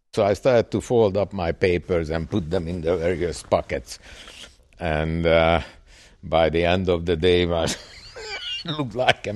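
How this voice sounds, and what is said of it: Hungarian accent. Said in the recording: “Hungarian guy with a strange accent ... many of them didn't understand my accent”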